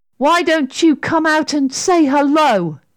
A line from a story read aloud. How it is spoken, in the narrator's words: shouted Sarah bravely